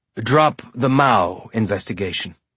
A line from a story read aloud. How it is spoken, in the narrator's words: Miller said